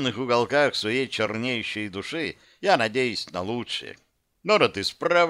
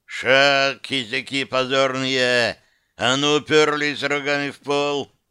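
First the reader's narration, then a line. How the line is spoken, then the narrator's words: Beastlike growl. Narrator (Russian): зарычал я сродни зверя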